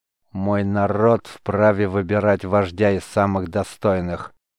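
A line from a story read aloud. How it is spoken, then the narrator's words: Barbarian's growl. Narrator (Russian): рыкнул варвар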